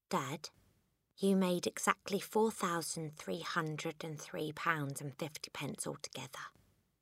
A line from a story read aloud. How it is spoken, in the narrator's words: Matilda said quietly